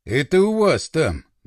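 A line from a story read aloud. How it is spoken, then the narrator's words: Sad soldier. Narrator (Russian): грустно сообщил боец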